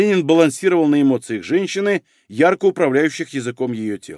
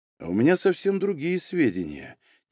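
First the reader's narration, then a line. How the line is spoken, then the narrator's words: Quiet and confiding. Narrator (Russian): тихо и доверительно сказал Егор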